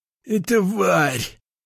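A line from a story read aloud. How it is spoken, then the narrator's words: Hissed groan. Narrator (Russian): прошипел тот, которого я отпинал, но этот стон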